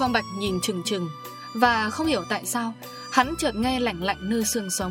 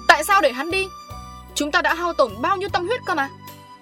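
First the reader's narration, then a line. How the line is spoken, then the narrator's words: Man shrieking. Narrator (Vietnamese): Ông đại đường rít lên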